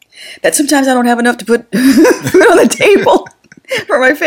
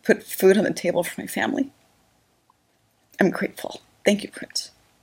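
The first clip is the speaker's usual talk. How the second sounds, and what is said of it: Choked-up, emotional voice. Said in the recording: “oh my God, I'm getting choked up”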